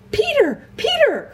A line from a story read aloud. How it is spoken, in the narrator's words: cried Edmund